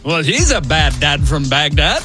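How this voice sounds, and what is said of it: Old-timey accent. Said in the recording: “Do that in your old-timey accent.”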